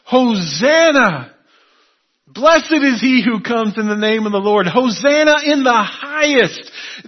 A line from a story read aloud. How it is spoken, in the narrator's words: the shouts